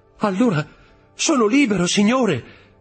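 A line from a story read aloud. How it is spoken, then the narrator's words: Overjoyed exclamation. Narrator (Italian): esclamò Dantès al colmo della gioia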